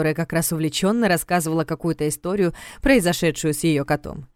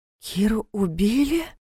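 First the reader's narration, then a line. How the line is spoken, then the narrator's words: Horrified breathless gasp. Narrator (Russian): в ужасе выдохнула темноволосая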